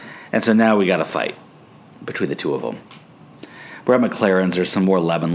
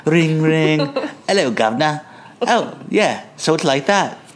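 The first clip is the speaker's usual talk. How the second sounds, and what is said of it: Put-on Cockney British accent. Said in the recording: “Except better than my ... Cockney British accent ... Yeah. That was good.”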